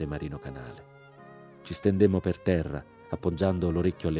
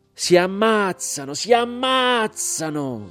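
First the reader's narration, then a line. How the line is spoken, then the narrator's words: Shouting while crying. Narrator (Italian): gridava Marino Canale e piangeva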